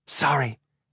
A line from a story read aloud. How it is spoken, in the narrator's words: whispered